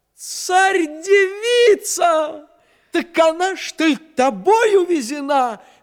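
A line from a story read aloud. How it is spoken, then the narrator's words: Sudden cry. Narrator (Russian): вскрикнул месяц Месяцович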